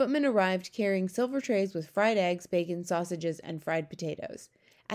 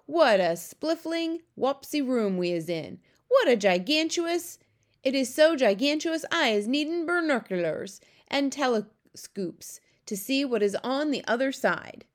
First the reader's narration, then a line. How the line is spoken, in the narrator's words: he cried